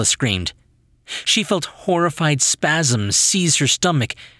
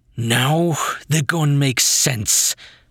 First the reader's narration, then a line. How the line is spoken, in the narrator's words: Bronson growled